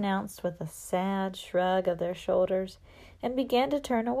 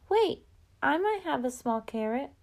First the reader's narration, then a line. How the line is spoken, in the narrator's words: A child timidly said